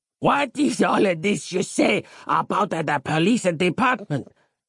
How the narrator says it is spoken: croaked Giuseppe

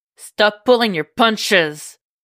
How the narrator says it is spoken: yells

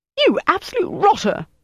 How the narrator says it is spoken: Denise said furiously

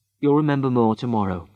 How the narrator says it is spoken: said Travis

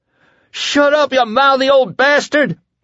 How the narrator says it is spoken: Lloyd screamed

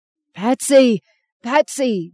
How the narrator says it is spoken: Jim screamed

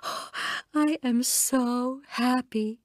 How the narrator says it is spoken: Constance said at last, gasping

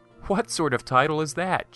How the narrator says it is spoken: said with a laugh

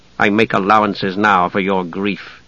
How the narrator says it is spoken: said coldly

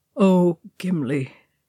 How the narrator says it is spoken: he said miserably

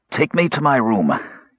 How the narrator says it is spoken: gasped Raistland

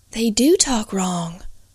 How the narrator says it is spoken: whispered

